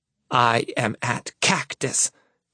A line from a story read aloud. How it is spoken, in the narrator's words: she hisses